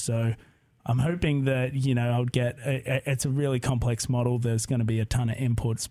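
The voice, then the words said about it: Australian accent. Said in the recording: “by your accent, you are not from Corvallis, Oregon ... all the way from Australia”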